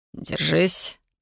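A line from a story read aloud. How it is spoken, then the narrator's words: Hoarse rasp. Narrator (Russian): прохрипел он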